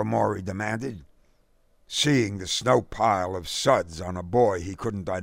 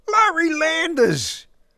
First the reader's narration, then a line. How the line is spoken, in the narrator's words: Derek cried